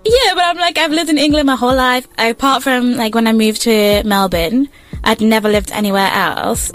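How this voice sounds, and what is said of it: English accent. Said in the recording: “I'm from England, bro. ... It's pretty obvious. ... The accent, like, oh, brother, where else?”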